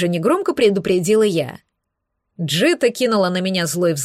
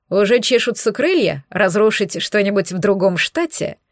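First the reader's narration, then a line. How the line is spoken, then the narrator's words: Sarcastic vampire question. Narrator (Russian): язвительно поинтересовался вампир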